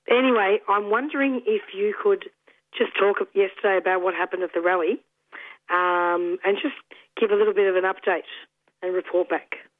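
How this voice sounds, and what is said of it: Slightly croaky voice. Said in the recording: “I'm just getting over a bug in case you think my voice sounds a bit different ... You do sound a little croaky”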